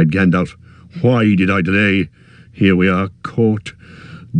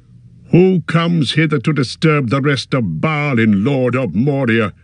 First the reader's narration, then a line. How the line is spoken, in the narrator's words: He cried in a loud voice